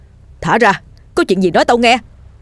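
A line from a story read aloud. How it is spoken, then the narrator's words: Terrified shout. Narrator (Vietnamese): Dần kinh hãi la lên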